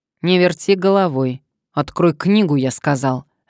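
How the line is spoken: Barked. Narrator (Russian): рявкнула трубка

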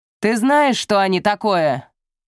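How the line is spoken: Shouting. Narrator (Russian): крикнула Эврейн

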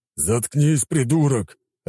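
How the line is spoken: Growling big warrior. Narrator (Russian): рыкнул крупный воин

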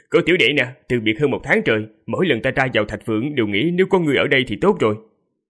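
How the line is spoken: Laughing loudly. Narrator (Vietnamese): cười to rồi nói

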